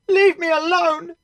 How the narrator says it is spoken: Julia shouted from the other side of the door

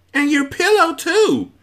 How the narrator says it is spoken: screeched the other

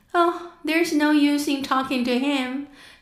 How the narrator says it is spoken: said Alice desperately

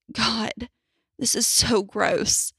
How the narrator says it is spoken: I whimpered

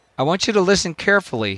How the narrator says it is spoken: he said

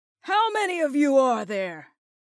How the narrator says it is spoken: Ian called out once more

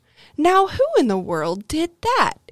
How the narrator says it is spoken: he exclaimed

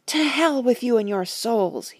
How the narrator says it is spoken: he shouted

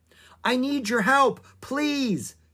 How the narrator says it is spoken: she shouted

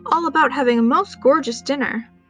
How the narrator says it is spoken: he grumbled

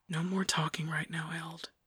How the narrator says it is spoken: Emin whispered

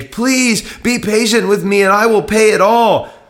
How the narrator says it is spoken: he begged

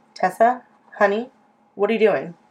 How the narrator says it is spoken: I asked

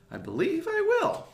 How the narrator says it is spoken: cried Peter Rabbit

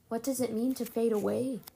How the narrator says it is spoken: Sophie asked quietly

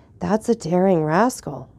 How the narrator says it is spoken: whispered the Count

